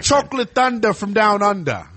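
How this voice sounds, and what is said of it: Put-on Australian accent. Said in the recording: “There we go. That's an Australian accent.”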